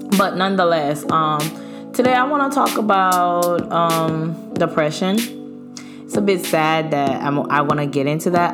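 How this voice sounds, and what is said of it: Voice sounds a little off. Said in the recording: “my voice sounds a little funny”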